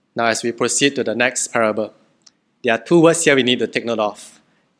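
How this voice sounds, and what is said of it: Malaysian English accent. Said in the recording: “my broken Malaysian English accent”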